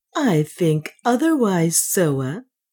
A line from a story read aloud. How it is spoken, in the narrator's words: Juana answered calmly, for she saw that neither passion nor pleading would help her